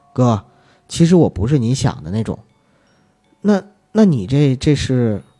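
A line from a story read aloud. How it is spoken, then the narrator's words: Soft. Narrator (Chinese): 女人 轻声地说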